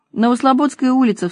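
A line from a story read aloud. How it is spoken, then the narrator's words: Sobbing. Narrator (Russian): всхлипывала Лена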